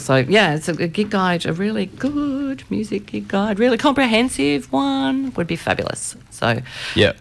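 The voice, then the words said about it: Silly put-on voice. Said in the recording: “doing my silly voice”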